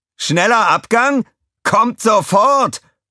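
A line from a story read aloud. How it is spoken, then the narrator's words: Roaring. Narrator (German): brüllte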